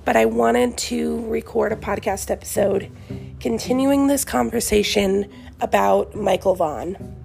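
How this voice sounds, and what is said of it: Voice rough from recent illness. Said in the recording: “apologize for my voice today as I'm just getting over being sick”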